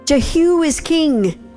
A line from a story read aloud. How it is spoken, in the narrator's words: everyone shouted